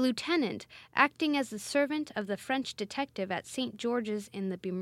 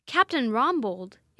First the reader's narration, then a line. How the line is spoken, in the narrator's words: exclaimed Christie to himself, as he heard for the first time the name